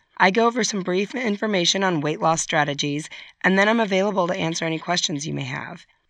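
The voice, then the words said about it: Slightly strained, weak voice. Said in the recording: “I've been a little under the weather. My voice is a little strained. ... my voice sounds a little sad.”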